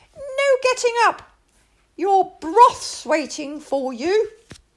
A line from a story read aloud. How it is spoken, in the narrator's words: cried the little princess